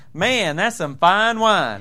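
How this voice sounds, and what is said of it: Put-on Southern US accent. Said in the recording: “in my southern accent,”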